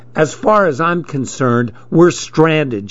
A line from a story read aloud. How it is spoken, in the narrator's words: she said